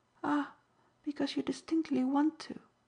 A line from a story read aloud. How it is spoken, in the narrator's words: said Nanda, ever so kindly